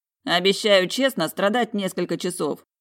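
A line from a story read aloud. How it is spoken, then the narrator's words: Amused snort. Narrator (Russian): хмыкнул блондин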